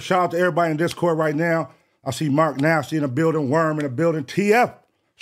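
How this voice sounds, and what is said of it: Hoarse, partly lost voice. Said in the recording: “My voice is a little, you know what I mean, gone.”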